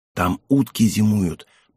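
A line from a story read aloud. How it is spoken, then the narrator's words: Whisper. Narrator (Russian): прошептала Егенка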